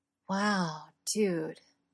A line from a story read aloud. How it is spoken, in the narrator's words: Andy says softly